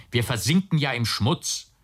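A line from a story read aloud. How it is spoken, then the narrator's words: Called out. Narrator (German): rief er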